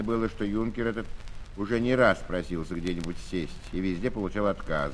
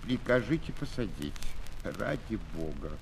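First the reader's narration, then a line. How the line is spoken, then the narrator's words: Hesitant pitiful plea. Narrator (Russian): Он просил нерешительным и жалким голосом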